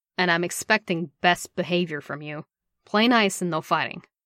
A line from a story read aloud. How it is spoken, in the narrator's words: more sharply